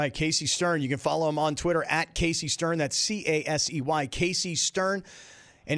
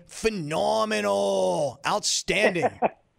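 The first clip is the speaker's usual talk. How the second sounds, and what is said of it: Imitates another person's voice. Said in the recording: “That's a pretty good impression”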